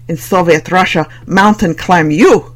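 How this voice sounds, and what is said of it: Deliberately poor Russian accent. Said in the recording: “in a deliberately poor Russian accent”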